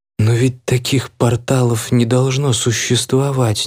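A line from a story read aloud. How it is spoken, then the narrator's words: Quiet. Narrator (Russian): негромко произнесла она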